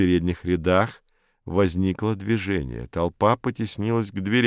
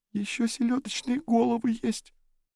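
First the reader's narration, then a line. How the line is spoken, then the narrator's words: Thin little voice. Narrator (Russian): Стелла сказала тоненьким голоском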